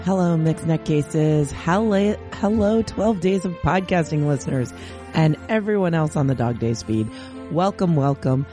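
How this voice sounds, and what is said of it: Slightly squeaky, strained sick voice. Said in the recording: “My voice is a little not so great ... there's a little squeaking going on”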